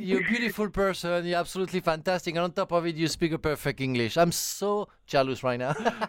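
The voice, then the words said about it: French-accented English. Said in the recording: “my bloody French accent”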